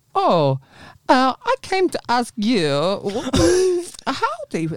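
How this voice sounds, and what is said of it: Put-on Eastern European accent. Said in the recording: “I think he was like Latvian or something. It was like an Eastern... do his voice... where's that accent coming from?”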